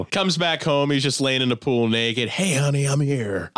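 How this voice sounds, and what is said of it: Imitates another person's voice. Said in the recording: “I cannot do a fucking Cage accent without doing Keanu Reeves”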